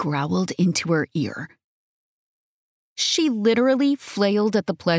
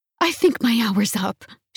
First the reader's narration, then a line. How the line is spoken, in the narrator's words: she gasped